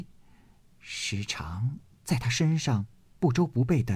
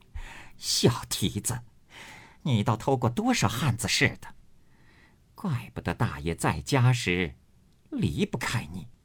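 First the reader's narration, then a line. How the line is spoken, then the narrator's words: Laughing scolding. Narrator (Chinese): 金贵笑骂道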